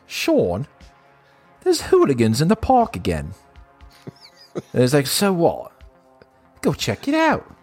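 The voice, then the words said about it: Put-on Australian accent. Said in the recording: “You sounded Australian then.”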